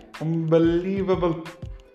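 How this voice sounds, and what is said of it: Weak attempted Geordie accent. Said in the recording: “I was trying to do a Geordie accent there ... That's Geordie. Good Lord, I thought it was Bermudan.”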